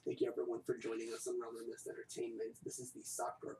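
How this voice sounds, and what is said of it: Put-on sexy voice. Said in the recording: “Fine, I'll do it in my sexy voice”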